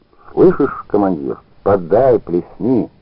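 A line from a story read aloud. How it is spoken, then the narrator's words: Damp, hoarse voice. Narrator (Russian): этот дурак сырым голосом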